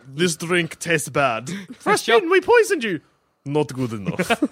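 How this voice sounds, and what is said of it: Poor put-on Russian accent. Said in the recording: “My Russian accent, very bad.”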